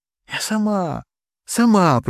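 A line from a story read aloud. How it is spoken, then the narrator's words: Whispered. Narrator (Russian): прошептала я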